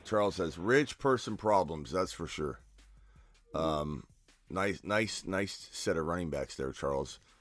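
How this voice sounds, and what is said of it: Hoarse, nearly lost voice. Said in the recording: “I've completely almost lost my voice. It's about shot at this point. Trying to get over this darn flu.”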